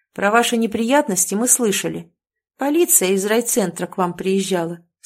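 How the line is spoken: Said calmly. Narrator (Russian): спокойно проговорил он

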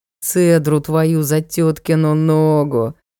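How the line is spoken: Groaning. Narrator (Russian): простонал рыцарь

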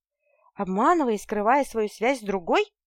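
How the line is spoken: Indignant, desperately brave exclamation. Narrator (Russian): воскликнула негодующе, все еще отчаянно храбрясь

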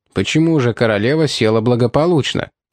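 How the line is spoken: Plain. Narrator (Russian): спросил Кости

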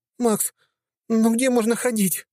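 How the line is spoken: Sobbing. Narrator (Russian): всхлипывала она

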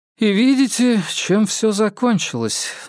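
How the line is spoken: Sighing woman. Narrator (Russian): вздохнула женщина

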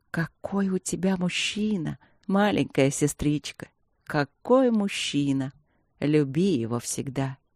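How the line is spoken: Rapturous whisper in ear. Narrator (Russian): наклонилась к уху Светланы и восторженным шепотом добавила

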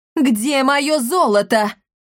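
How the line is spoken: Witch screaming. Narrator (Russian): завопила ведьма Амалия

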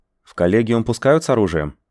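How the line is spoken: Plain. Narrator (Russian): спросил я

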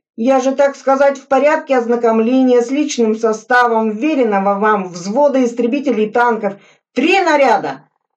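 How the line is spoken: Heated shout. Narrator (Russian): распаляясь, крикнул Суслин

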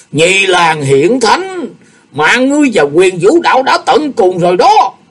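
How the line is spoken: Venomous shout. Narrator (Vietnamese): miệng thét âm độc

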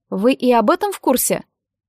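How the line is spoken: Snorting. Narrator (Russian): Котелок хмыкнул

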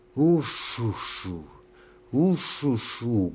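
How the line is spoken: Deep booming moan. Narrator (Russian): гулко и утробно стонала королева

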